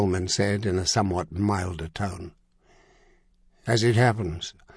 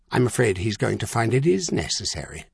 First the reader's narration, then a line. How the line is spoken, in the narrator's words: Coleman said coldly